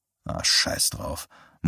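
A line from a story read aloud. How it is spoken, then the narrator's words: Muttered to himself. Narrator (German): murmelte zu sich selbst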